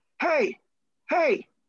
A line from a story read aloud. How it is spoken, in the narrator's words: yelling